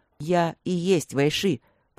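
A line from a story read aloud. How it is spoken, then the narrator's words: Hasty interrupting growl, tiger. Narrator (Russian): поспешно рыкнул тигр, прерывая ее бесконечную болтовню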